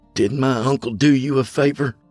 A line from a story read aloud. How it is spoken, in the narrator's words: I spat